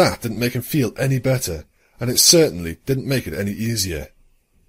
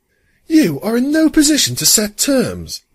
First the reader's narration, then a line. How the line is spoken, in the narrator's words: Luna snapped